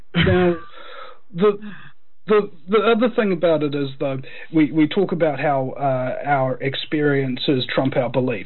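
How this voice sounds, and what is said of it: Noticeable regional accent. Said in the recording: “I've just got a funny accent.”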